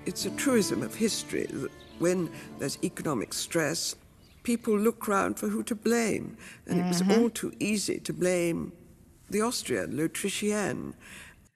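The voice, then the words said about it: British accent. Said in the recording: “she said it in such a beautiful British accent”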